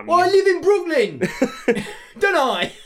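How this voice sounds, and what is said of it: East London accent. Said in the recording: “this East London guy... Not with that accent... East London-sounding”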